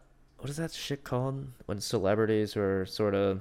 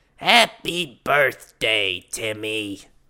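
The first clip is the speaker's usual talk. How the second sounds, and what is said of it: Gilbert Gottfried impression. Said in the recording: “what does Gilbert Gottfried do ... I'm not claiming to have a good Gilbert impression.”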